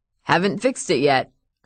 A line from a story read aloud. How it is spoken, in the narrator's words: her dad said, and laughed